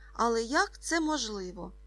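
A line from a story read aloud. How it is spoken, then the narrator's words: Exclaimed. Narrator (Ukrainian): вигукнув Ка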